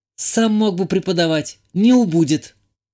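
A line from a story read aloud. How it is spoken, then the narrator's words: Girl snapping back. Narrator (Russian): огрызнулась девушка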